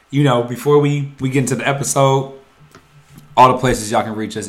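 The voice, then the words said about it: Rough, raspy voice. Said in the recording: “I know my voice probably sounds horrible in your eardrum ... you sound like the top five dead or alive ... He sounds like one of the greatest MCs ever”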